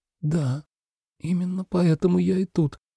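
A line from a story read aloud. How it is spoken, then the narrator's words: Timid reply after pause. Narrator (Russian): робко ответила девушка спустя пару мгновений молчания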